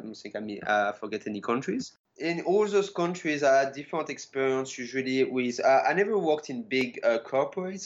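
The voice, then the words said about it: French-accented English. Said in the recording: “You probably hear my accent. I'm originally from France”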